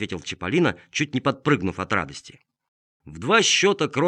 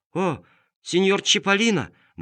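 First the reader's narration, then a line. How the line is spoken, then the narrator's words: Exclamation. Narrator (Russian): воскликнул он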